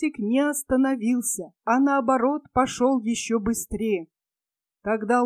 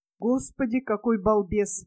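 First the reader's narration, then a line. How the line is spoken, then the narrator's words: Sigh. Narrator (Russian): вздохнул Лойзик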